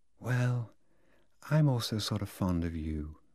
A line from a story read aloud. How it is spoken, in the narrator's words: said Lolita in a delayed, soft voice, with a sort of sigh